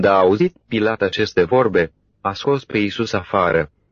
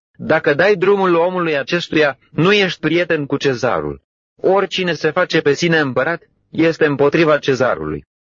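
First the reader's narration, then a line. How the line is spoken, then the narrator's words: Crowd shouting. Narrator (Romanian): Dar iudeii strigau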